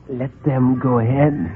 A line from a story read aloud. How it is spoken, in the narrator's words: he whispered